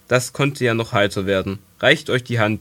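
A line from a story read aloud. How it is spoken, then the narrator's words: Stern. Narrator (German): sprach Randalin streng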